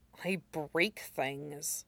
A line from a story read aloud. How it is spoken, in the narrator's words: Zuko muttered, feeling even more guilty